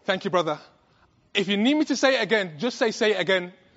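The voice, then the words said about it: British accent, rapid speech. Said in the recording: “I'm from England. ... my British accent. ... I speak rapidly.”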